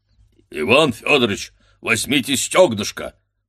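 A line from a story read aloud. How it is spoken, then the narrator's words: Roared, waiter. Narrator (Russian): проревел, став на колени, официант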